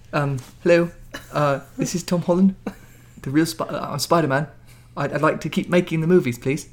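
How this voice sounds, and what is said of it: Tom Holland impression, cute accent. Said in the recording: “your cute little accent”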